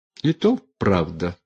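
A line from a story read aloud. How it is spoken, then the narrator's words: Sighing. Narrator (Russian): вздохнула Настасья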